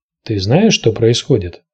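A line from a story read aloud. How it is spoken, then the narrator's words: Plain. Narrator (Russian): спросил его Тирион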